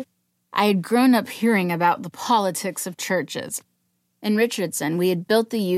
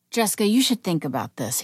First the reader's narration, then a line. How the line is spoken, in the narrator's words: he said